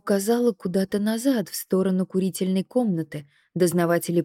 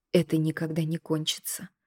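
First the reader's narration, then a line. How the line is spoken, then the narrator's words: Quiet. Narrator (Russian): тихо произнесла Надя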